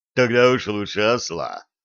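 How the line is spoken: Young man's scoff. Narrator (Russian): хмыкнул юноша

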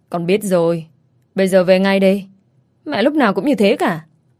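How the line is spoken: Sullen, on phone. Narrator (Vietnamese): Anh ta mặt hậm hực nghe máy

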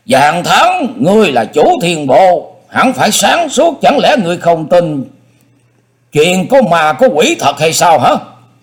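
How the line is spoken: Angry, cold voice. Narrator (Vietnamese): Dương Tử Côn tức giận hừ một tiếng, y lạnh lùng nói

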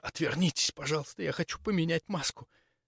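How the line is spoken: Anguished whisper. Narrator (Russian): Прошептала надрывно

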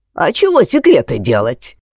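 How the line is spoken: Cheerful question. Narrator (Russian): весело спросил Семен

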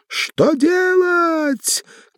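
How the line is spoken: Final shout. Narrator (Russian): крикнула в последний раз

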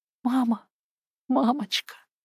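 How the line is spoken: Whisper. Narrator (Russian): шептала

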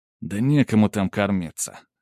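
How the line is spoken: Sorrowful sigh. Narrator (Russian): горестно вздохнул Иван

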